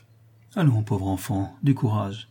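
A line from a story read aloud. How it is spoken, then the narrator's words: Plain. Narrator (French): dit Rodolphe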